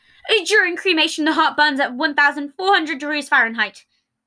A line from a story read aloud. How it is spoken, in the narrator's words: blurting out